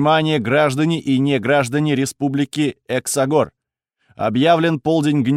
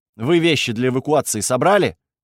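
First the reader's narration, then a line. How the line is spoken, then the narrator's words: Stern question. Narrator (Russian): строго спросила она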